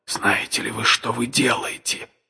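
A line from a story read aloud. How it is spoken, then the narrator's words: Whispered. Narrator (Russian): прошептал я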